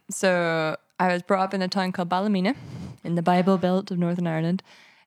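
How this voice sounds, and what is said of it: Northern Irish accent. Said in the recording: “So I was born in Northern Ireland. ... I would never have guessed that from that accent.”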